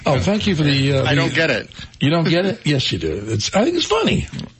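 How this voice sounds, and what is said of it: Weird accent. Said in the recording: “having that weird accent”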